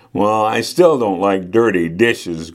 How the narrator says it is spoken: grumbled Cassie

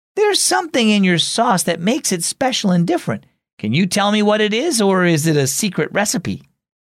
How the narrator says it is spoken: Dad laughed again

